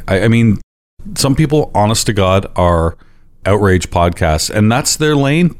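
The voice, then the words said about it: Canadian accent. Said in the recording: “my Canadian accent”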